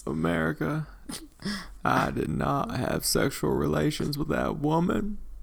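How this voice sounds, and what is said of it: Imitates another person's voice. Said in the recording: “the impression and like your facial impression of that was quite spot on”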